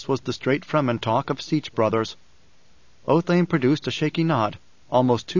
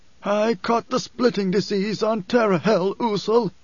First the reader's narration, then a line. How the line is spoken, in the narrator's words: he wheezed